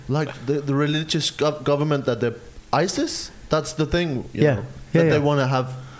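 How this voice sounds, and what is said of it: Accent that is hard to follow. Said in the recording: “I lose some shit in your accent.”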